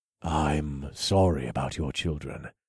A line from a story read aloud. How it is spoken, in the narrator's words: I said softly